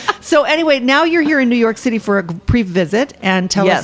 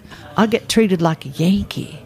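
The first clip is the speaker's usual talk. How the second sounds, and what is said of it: Thick put-on Southern accent. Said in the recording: “a really thick Southern accent... That was very designing women of you, that accent... One of the sugar bakers.”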